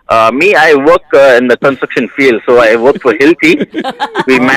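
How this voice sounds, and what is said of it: Usual voice. Nothing is said of it.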